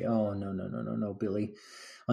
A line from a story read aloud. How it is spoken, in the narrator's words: under his breath